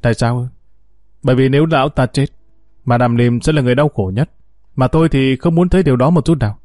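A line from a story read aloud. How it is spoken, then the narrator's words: Smiling. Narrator (Vietnamese): Jet mỉm cười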